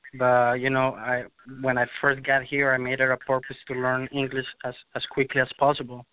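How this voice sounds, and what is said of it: Noticeable non-native English accent. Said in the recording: “I still have an accent. That's pretty obvious.”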